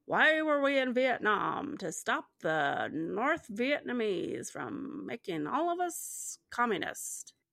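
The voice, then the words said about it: Mock newscaster voice. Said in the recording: “Is that Nixon or something? ... It's just sort of a newscaster voice. ... It was pretty good.”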